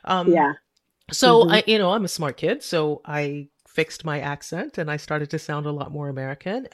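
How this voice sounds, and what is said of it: Lilting West Indian accent. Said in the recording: “lilt of your accent... I speak like I'm a West Indian”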